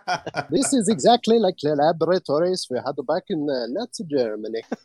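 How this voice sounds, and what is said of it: Mock Wernher von Braun German accent. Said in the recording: “I thought you were going to say that it was designed by Wernher von Braun. ... What is that accent?”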